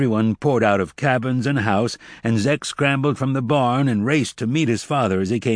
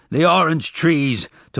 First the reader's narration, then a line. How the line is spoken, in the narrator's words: Tobias panted